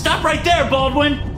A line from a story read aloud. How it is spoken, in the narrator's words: Lohan shouts at me